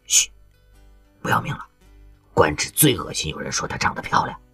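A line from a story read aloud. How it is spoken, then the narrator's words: Hushed, low voice. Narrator (Chinese): 有人嘘了一声，压低了声音说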